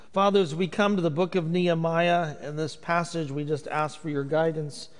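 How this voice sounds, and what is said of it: Hoosier drawl, Indiana accent. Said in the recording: “I don't have that accent ... you're stuck with this Hoosier drawl.”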